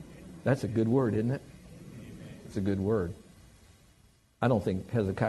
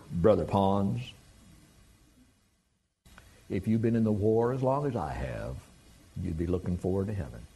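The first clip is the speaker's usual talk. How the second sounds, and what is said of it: Southern Tennessee drawl. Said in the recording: “in his Southern Tennessee drawl.”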